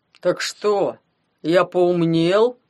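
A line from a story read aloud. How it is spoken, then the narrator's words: Surprised bass voice. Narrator (Russian): Басом удивился Гломов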